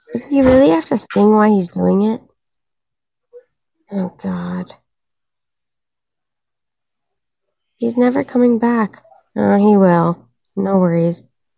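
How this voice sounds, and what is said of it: Hoarse, tired, low-pitched voice. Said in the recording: “I'm like losing my voice right now ... I'm so tired. I sound like a man.”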